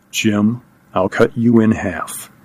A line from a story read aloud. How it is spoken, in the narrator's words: He said, just above a whisper